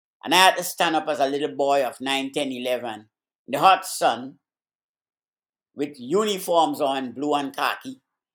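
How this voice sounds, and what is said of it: Caribbean accent. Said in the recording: “you can tell from my accent, I come from the Caribbean”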